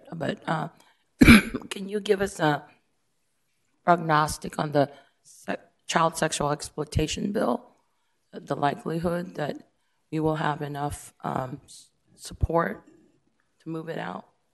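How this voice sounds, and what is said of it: Voice not fully recovered. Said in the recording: “my voice is not quite there yet”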